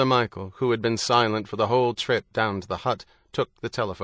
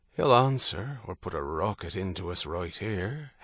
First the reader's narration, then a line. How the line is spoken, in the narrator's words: Herity muttered